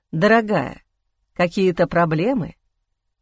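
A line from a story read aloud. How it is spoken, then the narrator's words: Gentle question. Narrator (Russian): мягко спросил Эхран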